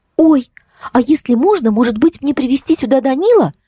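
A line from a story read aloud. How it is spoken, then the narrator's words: Exclaiming. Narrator (Russian): воскликнула она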